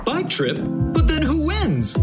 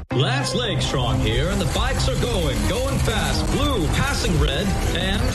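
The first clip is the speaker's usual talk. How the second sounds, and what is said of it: Sports race announcer voice. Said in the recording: “practicing my announcer voice for the big race”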